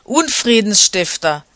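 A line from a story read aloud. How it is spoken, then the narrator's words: Angry shout. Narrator (German): rief sie erzürnt gegen Romulus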